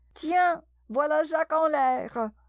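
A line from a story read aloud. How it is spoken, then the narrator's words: Rabbit shouting. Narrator (French): la voix du lapin qui criait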